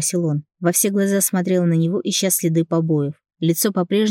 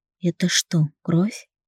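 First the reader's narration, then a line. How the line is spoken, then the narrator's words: Quiet question. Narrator (Russian): тихо спросила я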